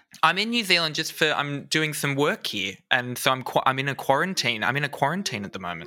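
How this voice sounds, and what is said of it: Australian accent. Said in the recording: “he is what's known in the business as Australian. So keep your ears peeled for an accent.”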